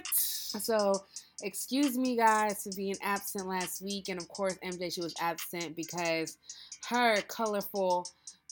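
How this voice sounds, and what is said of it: Voice not fully recovered. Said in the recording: “I was ill. My voice is still not all the way there. I've been coughing up a storm.”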